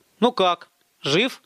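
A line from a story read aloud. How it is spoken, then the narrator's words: Plain question. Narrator (Russian): спросил Михаил Шустер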